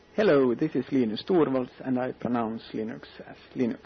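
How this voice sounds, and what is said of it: Slight Finnish accent in English. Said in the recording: “he's got a little bit of Finnish accent”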